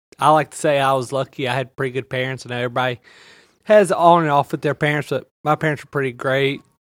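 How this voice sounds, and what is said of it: Thick Louisiana Southern accent. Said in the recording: “Louisiana. ... That accent's real thick, hombre.”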